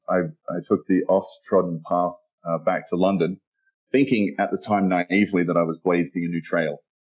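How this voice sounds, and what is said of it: Mild Australian accent. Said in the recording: “My accent is Australian. It's a little buried from having spent so much time abroad.”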